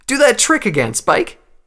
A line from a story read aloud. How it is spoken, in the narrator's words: exclaimed